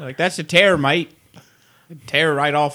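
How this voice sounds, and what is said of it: Mock New Zealand accent. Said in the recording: “that's just their accent. ... They're New Zealanders, and so they say tear wrong.”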